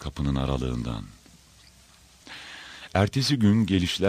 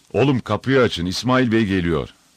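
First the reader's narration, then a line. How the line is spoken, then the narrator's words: Shouted. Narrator (Turkish): diye bağırdı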